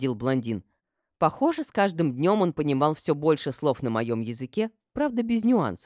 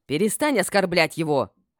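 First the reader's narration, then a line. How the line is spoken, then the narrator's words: Barked. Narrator (Russian): рявкнула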